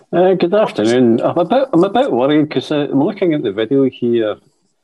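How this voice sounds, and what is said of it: Scottish accent. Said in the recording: “odd Scottish accent guy”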